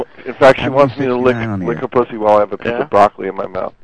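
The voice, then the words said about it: Hoarse, strained, nearly lost voice. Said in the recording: “my fucking throat is killing me. I lost my voice”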